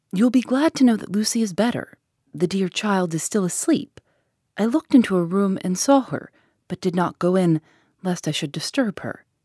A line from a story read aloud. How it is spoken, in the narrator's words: She greeted us warmly and said